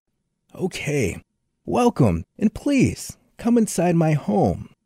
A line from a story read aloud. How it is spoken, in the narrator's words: said Tom happily